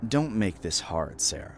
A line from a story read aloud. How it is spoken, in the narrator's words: he said, his voice cold